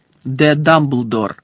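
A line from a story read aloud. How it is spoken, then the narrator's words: Stern. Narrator (Ukrainian): суворо звернувся Фадж до місіс Візлі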